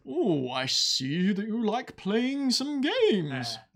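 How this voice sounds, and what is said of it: Campy villain character voice. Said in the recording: “Psycho Mantis's voice ... It was through the mask ... It's really campy.”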